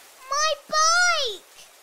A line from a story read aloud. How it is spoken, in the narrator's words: yelled Joe